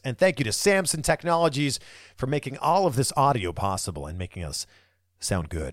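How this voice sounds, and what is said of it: Radio announcer voice. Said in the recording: “Every time I do that, I go into this voice, like the radio announcer voice.”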